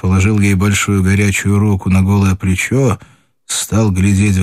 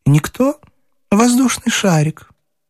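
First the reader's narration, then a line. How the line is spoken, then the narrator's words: Dizzy, laughing answer. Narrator (Russian): Смеясь от головокружения, она ответила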